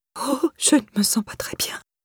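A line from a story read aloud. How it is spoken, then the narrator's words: Breathy whisper. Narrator (French): souffla-t-elle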